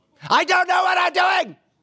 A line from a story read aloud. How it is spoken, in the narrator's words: what I wanted to yell